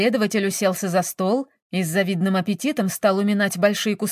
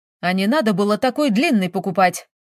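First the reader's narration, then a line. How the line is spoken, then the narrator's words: Snapping back. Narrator (Russian): огрызнулся Шура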